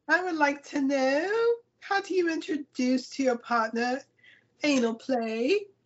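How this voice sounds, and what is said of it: Put-on accent. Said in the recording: “Not the accent.”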